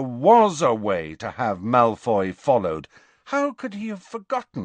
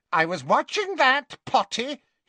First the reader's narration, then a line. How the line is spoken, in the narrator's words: he told Harry indignantly